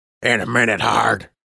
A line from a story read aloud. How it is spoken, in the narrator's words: Major Lucky growled